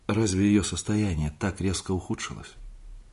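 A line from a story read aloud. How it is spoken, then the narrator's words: Forced calm, distant voice. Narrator (Russian): я спросил, насколько мог спокойно, каким-то далеким голосом, словно спрашивал кто-то другой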